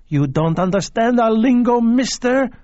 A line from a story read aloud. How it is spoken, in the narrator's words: she screamed at him